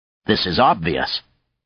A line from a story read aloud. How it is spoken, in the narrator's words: Zake replied coldly